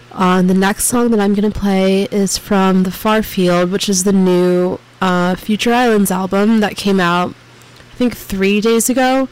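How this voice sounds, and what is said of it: Sick, slightly off voice. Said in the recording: “I'm kind of sick right now, so that's why my voice sounds a little bit off”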